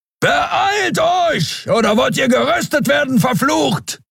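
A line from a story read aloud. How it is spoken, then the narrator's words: Thundering. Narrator (German): donnerte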